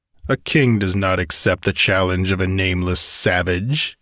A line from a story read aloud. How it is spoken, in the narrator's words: sneered